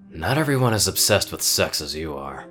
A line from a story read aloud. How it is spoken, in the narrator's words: Dusty grumbled